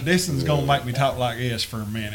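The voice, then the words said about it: Put-on rural Kentucky accent. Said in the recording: “This is how I work on an accent. The more I drink, the more it gives me an accent. ... We letting the Knott County come out in us.”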